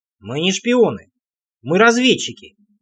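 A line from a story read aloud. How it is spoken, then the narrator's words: Snorting. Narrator (Russian): хмыкнул я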